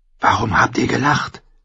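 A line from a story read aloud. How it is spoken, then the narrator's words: Girl's whispered question. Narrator (German): fragte das Mädel im Flüsterton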